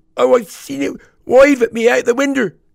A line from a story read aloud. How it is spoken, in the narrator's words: wailed the boy